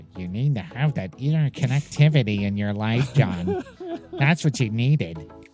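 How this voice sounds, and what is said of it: Mocking whiny voice. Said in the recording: “that whiny voice.”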